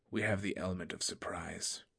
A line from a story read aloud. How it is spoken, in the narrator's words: her mother said gravely